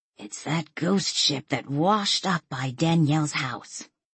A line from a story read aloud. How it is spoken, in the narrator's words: In a loud whisper, she said